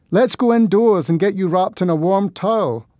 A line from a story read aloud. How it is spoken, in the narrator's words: I shouted over the thunder